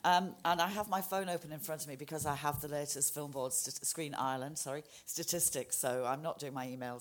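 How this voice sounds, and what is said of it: Hoarse, fading voice. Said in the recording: “I'm losing my voice. I've had a bit of a cough ... the voice is gone”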